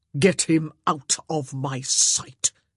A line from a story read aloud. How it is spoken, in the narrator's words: he spat at her